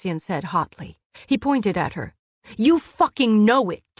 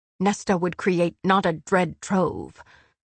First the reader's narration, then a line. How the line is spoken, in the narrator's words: Amryn said, unfazed by his snarling